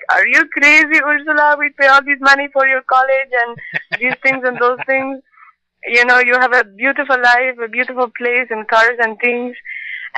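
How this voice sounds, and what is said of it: Imitates another person's accented voice. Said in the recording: “my dad's accent doesn't really sound like that”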